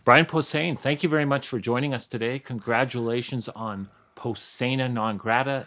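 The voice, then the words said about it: Canadian accent. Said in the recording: “I'm Canadian like them ... I caught that ... I still have the accent”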